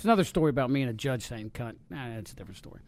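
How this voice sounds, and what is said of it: Thick regional accent. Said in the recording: “Thick accent.”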